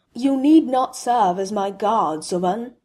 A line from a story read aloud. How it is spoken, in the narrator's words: Helblindi rumbled